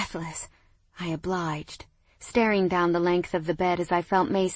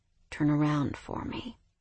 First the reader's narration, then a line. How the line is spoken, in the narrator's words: he murmured